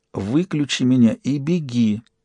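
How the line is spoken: Weak, exhausted whisper. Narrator (Russian): из последних сил прошептал он

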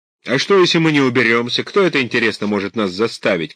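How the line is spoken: Shout. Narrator (Russian): крикнул

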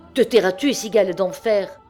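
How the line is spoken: Shouted from afar. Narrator (French): cria-t-elle toujours du même coin obscur de la place

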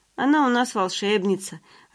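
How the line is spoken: Joyful chiming in, dad. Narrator (Russian): радостно подхватывает папа

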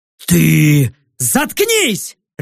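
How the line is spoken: Barked. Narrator (Russian): рявкнул я

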